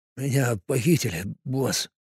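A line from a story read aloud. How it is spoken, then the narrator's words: Barely audible mumble. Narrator (Russian): пробормотал тот, едва шевеля губами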